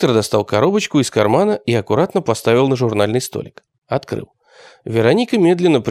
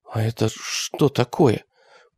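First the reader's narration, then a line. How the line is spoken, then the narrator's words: Whisper after long silence. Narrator (Russian): прошептала после долгого молчания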